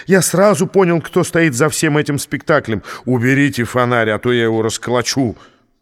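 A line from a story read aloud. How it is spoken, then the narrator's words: Barking. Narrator (Russian): гаркнул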